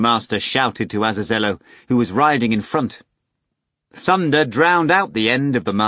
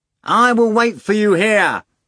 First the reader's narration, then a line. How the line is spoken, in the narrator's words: Azazello shouted, cupping his hands to his mouth